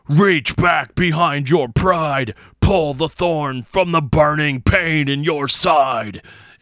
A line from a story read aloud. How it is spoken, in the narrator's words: screams